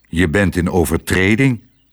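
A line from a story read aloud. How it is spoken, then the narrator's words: Stern. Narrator (Dutch): zei hij streng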